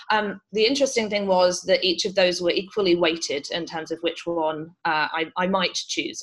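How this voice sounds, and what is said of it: British accent. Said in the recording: “you can probably tell from my accent, I grew up in the UK”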